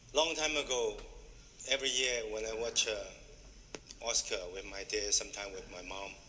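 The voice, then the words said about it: Foreign-accented English. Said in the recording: “I love his accent.”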